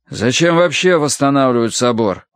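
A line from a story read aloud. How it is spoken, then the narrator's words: Son grumbling. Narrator (Russian): ворчал сын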